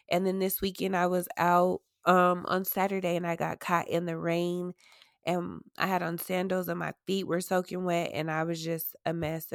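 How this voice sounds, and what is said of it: Sick-sounding voice, under the weather. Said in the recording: “as you can tell by my voice that I am definitely under the weather ... I just have a little cold”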